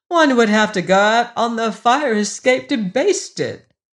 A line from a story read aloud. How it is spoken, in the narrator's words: wailed Emma McChesney